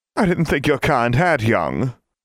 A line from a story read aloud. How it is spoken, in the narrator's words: the painting said in a spiteful tone